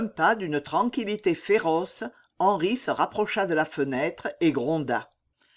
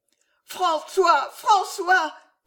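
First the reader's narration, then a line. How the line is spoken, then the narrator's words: Delirious screaming. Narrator (French): hurla Jeanne délirante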